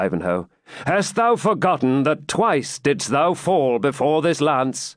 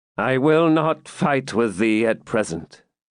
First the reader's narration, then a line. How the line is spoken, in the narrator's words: said the Templar, in a changed and hollow voice